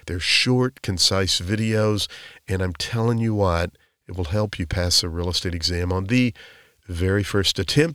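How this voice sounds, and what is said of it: Voice recovering from a cold. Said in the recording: “I have a little bit of a cold, but I'm over it, and my voice is trying to bounce back”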